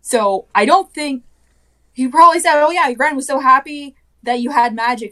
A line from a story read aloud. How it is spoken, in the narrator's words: she cried